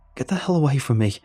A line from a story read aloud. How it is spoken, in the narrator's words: I squeaked out